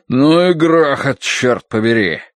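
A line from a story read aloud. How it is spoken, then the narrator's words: Barked. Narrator (Russian): Рявкнул Хадсон Грейтхаус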